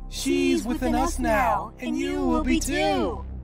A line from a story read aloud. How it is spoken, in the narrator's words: They shouted darkly in unison